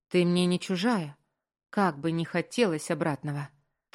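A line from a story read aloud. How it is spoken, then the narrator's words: Sharp reply. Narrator (Russian): Так же резко ответила Белла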